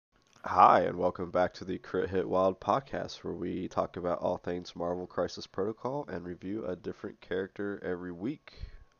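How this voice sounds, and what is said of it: Sick, slightly muted voice. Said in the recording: “If you can tell by my voice, I am a little under the weather this week ... I might be a little bit more muted than usual”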